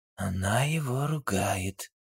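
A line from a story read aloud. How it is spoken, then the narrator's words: Whisper. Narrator (Russian): шепотом сообщил Дронго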